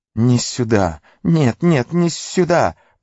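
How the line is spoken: Hiss. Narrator (Russian): прошипел Горлум

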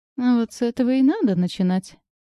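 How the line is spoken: Giggling. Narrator (Russian): хихикнула я

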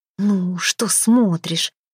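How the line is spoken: Angry hiss. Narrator (Russian): сердито прошипела ему Хёрдис

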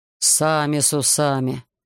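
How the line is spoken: Grumbling. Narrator (Russian): проворчал командир полка

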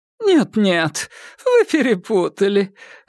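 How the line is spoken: Laughing. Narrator (Russian): рассмеялась миссис Бэйнс

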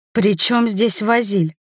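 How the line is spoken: Hoarse question. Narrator (Russian): хрипло спросила

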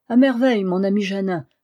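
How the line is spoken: Exclaiming. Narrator (French): s'écria-t-il

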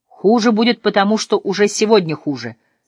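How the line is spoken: Plain. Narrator (Russian): сказал Мануэль

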